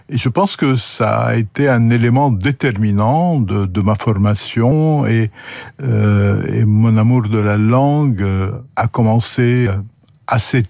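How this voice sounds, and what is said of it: Lebanese-accented French. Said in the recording (French): “votre accent. Cet accent qui vous vient du Liban”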